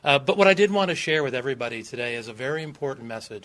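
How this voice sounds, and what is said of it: Southern US accent. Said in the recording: “Southern hospitality ... as you can probably tell by my accent”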